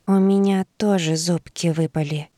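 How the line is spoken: Shy whisper. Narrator (Russian): застенчиво прошептала

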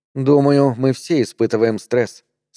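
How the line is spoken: Calm. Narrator (Russian): спокойно сказала Мария

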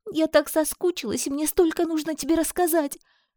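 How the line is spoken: Sobbed. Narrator (Russian): всхлипнула Диана

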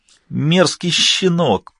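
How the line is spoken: Whining. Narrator (Russian): продолжал скулить невидимый нытик

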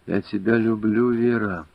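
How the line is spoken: After a long sigh. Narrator (Russian): протяжно вздохнув, сказал

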